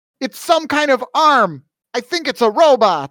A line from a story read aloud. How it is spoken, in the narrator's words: didn't yell up